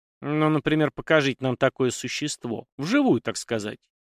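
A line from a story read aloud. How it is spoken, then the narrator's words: Snide reply. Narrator (Russian): ехидно отозвалась Настя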